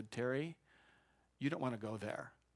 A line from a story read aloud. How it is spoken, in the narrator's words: very gently and lovingly said